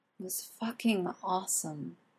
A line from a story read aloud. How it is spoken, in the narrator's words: Arthur finally says dreamily